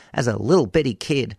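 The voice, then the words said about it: Put-on Oklahoman accent. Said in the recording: “I'll say that in an Oklahoman accent, to honour Jim Ross, legendary commentator”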